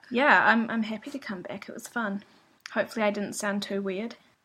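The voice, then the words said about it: Speaks with a noticeable accent. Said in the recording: “I'm sure everybody loves your accent. ... could listen to it all day.”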